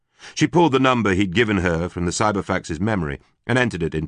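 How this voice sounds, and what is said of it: Usual voice. Nothing is said of it.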